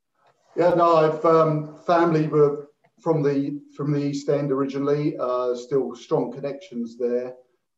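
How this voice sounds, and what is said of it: Slight East London accent. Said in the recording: “I'm hearing a bit of an East London accent”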